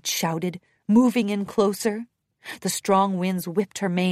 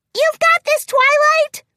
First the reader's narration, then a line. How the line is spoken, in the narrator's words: Pinkie shouted over the strengthening storm